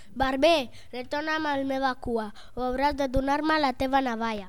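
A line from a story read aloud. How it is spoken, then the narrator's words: Shout. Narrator (Catalan): Aquest crinollat li va cridar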